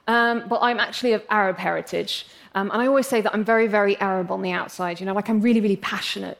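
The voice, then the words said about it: English accent. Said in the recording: “I'm English, as you can probably tell from my accent”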